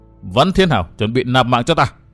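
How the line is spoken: Loud laughing woman. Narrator (Vietnamese): Hắc phong nữ Tiêu Như Anh cười lớn tiếng nói

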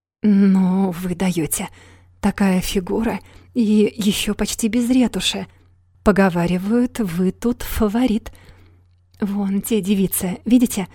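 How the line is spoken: Eager gossipy whisper. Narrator (Russian): Оксана словоохотливо воодушевленная шансом посплетничать, зашептала

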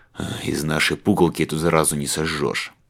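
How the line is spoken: Gloomy grumble. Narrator (Russian): проворчал Бежан мрачней тучи

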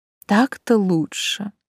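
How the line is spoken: Purring. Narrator (Russian): мурлыкнула я

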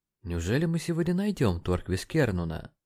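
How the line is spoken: Mumbled. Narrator (Russian): пробормотал Джеймисон

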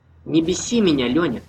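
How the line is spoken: Plain. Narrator (Russian): сказал Влад

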